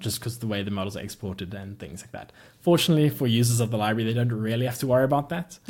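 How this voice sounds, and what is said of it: South African accent. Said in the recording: “that South African accent”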